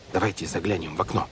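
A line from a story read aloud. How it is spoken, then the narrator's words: Whisper. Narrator (Russian): прошептал Клаус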